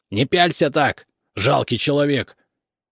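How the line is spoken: Barked. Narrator (Russian): рявкнул

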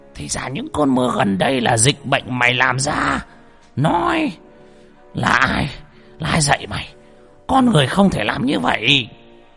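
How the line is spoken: Roaring. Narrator (Vietnamese): Lão Mo gầm lên

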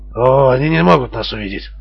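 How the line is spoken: Calm objection. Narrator (Russian): совершенно спокойно возразил Жан

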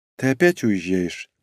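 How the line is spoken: Sighing. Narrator (Russian): вздохнула Норико

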